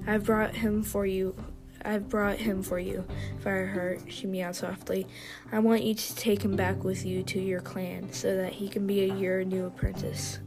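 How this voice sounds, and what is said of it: Tired voice, some stuttering. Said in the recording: “Sorry if I stuttered a lot. My voice is tired.”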